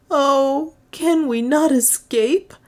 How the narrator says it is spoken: moaned Juana

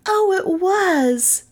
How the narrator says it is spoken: they cried

